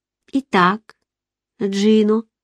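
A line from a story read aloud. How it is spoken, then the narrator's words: Gentle after long silence. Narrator (Russian): ласково произнесла я после продолжительного молчания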